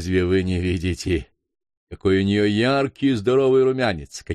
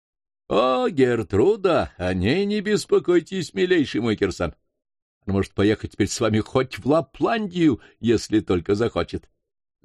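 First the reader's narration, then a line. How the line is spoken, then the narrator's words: Laughing. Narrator (Russian): засмеялся доктор Бье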